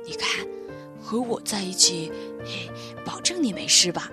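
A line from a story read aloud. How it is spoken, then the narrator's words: Soft quiet voice. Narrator (Chinese): 宝儿小声的对奥利弗说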